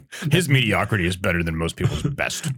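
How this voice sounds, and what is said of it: Mock snobby film-buff voice. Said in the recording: “dumb movie person guy impersonation”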